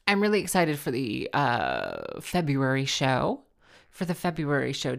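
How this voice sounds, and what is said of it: Low creaky vocal fry. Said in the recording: “Do I sound like Barack Obama when I have my little vocal fry? ... or like a pilot?”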